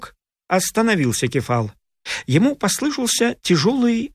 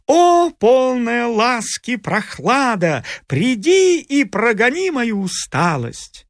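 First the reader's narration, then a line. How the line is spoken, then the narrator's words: Loud singing. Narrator (Russian): Громко пел он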